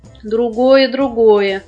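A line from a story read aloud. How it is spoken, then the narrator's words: Aliens, soft laughter. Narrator (Russian): инопланетяне тихонечко засмеялись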